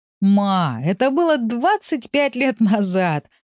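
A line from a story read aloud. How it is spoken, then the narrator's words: Laughing. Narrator (Russian): рассмеялся Павел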